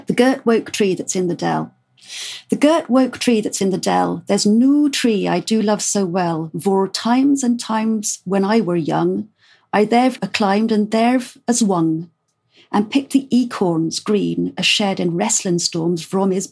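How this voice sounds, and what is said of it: Poem read in Dorset dialect. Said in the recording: “read us a little bit of Dorset dialect ... he writes it phonetically, so that's the way I'm going to pronounce it”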